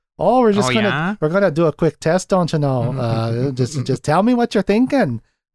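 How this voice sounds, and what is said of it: Upbeat Fargo-style Minnesotan voice. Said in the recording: “her weird, upbeat attitude ... if she didn't have like a British accent, I would say she's from like the movie Fargo.”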